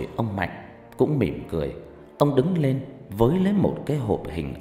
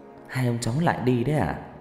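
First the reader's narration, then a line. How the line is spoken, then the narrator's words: Smiling. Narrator (Vietnamese): Ông Mạnh ... mỉm cười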